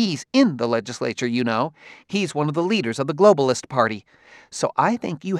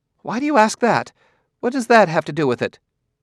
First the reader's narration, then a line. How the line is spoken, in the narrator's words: sighed, dour face seemed to sadden further